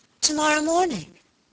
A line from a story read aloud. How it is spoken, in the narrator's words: exclaimed my lady, looking up suddenly